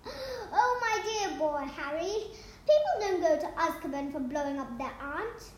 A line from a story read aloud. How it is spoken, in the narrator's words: Cornelius Fudge replied, laughing